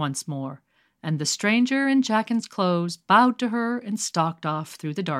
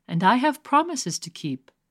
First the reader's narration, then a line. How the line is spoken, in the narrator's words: said sadly